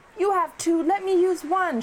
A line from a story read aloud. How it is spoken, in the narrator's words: shouted Riaz